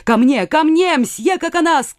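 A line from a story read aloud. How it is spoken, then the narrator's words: Shouting. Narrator (Russian): крикнул Ля-Моль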